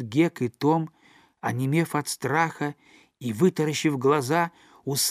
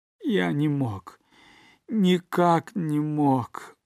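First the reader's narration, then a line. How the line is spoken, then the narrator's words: Moaning. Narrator (Russian): простонал Поттер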